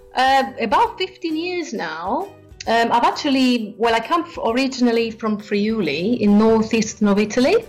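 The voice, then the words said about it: Italian-accented English. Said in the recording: “you have a beautiful accent”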